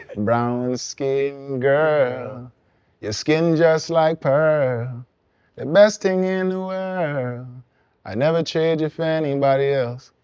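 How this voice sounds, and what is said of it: Sung in a Guyanese accent. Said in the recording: “I did that in my Guyanese accent”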